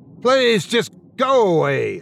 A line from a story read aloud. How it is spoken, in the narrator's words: I shouted